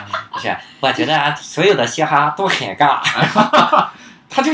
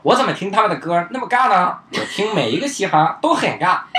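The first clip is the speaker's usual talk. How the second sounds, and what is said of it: Put-on accent. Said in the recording (Chinese): “我为啥要用这个口音？”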